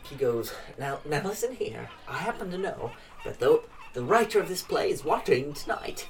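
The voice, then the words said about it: Slightly Irish character voice. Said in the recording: “I fucked up his accent already ... It was like a little bit of an Irish one”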